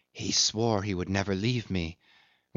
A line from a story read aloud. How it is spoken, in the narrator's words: she whispered softly